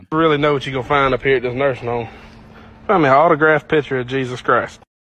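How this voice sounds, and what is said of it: Southern accent, slurred words. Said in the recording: “that southern accent right there where the words were all slurred together”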